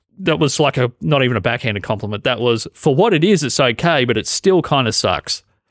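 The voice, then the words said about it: Australian accent, somewhat blended. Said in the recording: “my Australian accent, to be honest, has, it's changed over the last 10 years ... I've got more accent blend in my head”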